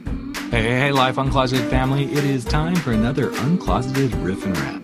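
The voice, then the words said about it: Announcer-style radio voice. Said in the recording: “I like that little radio voice there.”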